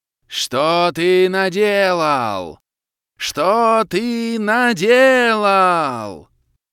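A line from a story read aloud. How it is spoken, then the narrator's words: Furious roar. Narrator (Russian): Проревела кобра, в бешенстве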